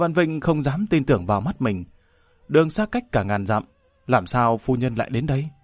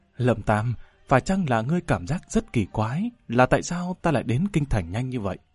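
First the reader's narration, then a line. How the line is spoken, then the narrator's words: Smiling woman. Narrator (Vietnamese): Phu nhân mỉm cười nói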